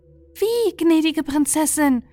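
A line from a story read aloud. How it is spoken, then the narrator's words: Calling out. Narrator (German): rief Aprikotine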